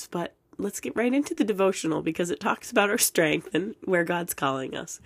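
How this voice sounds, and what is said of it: Hoarse, fading voice. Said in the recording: “losing my voice a little bit”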